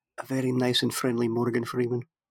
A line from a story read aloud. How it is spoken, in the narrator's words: I whispered to it really, really, quietly